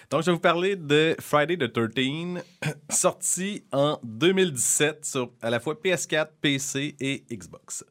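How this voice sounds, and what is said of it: Noticeable accent. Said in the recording (French): “pardon pour mon accent, encore une fois”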